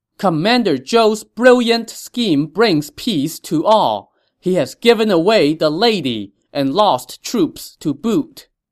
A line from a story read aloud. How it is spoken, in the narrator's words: they shouted in unison